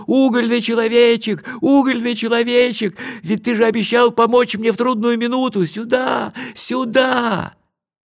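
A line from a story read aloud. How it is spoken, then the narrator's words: Desperate shout. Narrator (Russian): Кай на удачу закричал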